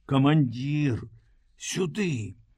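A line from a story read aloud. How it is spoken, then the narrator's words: Anxious mysterious whisper. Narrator (Belarusian): сушылаў, які стаяў на варце, прашаптаў трывожнай таямнічнай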